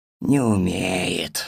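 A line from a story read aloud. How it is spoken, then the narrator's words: Old man's sigh. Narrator (Russian): вздохнул дед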